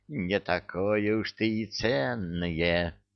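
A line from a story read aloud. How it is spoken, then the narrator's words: Sinister whisper. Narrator (Russian): зловещим голосом прошептал он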